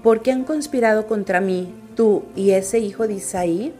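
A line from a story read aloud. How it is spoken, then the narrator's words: Plain question. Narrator (Spanish): le preguntó Saúl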